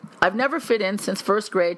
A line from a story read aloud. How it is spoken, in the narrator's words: said